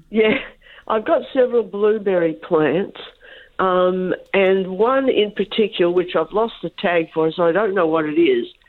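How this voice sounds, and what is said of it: Sick, rough-sounding voice. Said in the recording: “I'm sorry I'm crook today, so my voice is pretty bad ... You don't sound too flash.”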